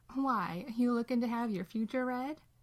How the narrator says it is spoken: Dean laughs

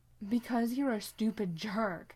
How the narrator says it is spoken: Sam says, fear making his voice a rough snarl

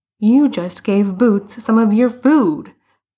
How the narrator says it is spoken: Bruno exclaimed

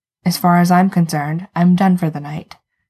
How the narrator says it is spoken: says Jensen

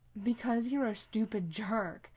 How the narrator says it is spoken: Sam says, fear making his voice a rough snarl

